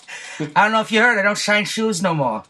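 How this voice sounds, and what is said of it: Poor imitation of an actor's voice. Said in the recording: “Bad Joe Pesci right there. ... my bad Joe Pesci impersonation.”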